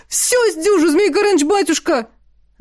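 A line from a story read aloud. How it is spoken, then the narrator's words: Desperate loud yell. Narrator (Russian): завопил Тихон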